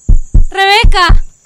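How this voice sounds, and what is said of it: Shouting a name. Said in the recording (Spanish): “¿Por qué gritaste así?”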